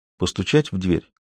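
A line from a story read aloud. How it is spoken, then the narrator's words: Quiet question. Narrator (Russian): тихо спросил Уокер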